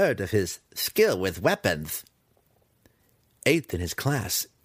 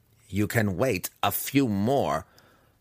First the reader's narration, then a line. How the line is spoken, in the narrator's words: Massage snapped back